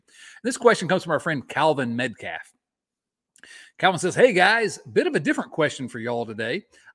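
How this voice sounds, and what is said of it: Strong Southern US accent. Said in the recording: “this ridiculous Southern accent”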